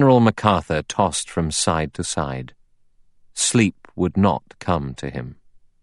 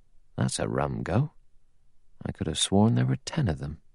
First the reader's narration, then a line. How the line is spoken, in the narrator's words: He muttered to himself